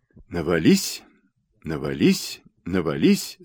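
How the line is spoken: Rhythmic dry-lipped mutter. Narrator (Russian): сама того не замечая, сухими губами бормотала Рита в такт гребцам

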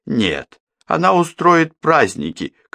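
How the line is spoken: Shouting. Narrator (Russian): крикнула Эмма

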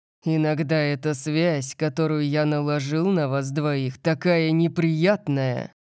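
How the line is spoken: Growled by father. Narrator (Russian): прорычал отец

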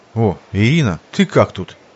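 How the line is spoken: Confused reply. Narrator (Russian): растерянно ответил на приветствие подруги Сергей

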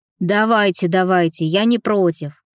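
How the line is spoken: Sly smiling grumble. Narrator (Russian): хитро улыбнувшись проворчал

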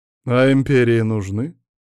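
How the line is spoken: Mocking question. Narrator (Russian): насмешливо поинтересовался император

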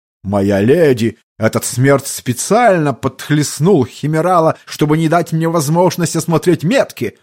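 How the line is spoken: Yelling at full volume. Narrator (Russian): завопил он во все горло

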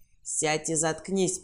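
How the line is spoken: Growled. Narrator (Russian): прорычал

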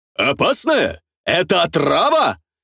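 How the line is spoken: Performer shouting. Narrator (Russian): выкрикнул артист

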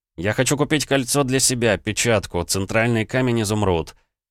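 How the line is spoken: Barked, interrupting. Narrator (Russian): рявкнул я, перебивая его

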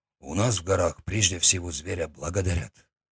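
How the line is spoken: Quiet. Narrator (Russian): сказал тихо

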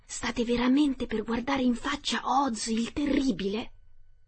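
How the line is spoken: Whispered. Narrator (Italian): uno di loro bisbigliò

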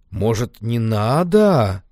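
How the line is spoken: Drawn-out. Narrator (Russian): протянул Вован

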